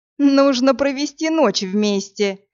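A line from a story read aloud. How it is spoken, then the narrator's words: Giggle. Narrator (Russian): хихикнул Герион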